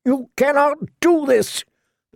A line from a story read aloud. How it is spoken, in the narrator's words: shouted at their retreating backs